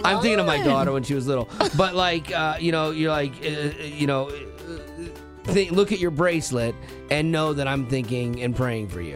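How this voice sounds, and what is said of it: Choked-up, tearful voice. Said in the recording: “getting choked up ... a tear rolls down the side of my face”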